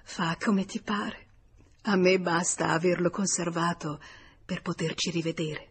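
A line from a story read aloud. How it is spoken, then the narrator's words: Adoring murmur. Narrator (Italian): in uno slancio d'adorazione, mormorando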